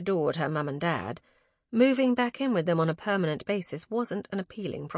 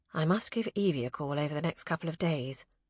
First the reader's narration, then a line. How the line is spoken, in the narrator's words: murmured